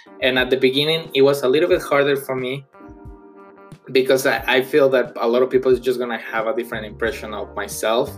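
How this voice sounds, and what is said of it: Non-native English accent. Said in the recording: “English is my second language. And I know, and I'm 100% sure that you noticed my accent.”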